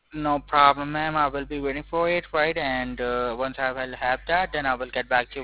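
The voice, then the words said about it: Non-American, Asian South African accent. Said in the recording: “My accent is it's not an American. ... I'm Asian and South Africa, from South Africa. That's why my accent has changed.”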